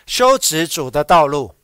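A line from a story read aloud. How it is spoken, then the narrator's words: Loud crying out. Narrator (Chinese): 在旷野有人呼喊，大声的呼喊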